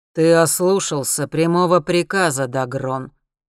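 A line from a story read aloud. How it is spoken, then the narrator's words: Enraged sorcerer, menacing. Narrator (Russian): грозно произносит взбешенный колдун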